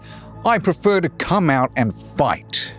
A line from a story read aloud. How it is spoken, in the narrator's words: He shouts to the soldiers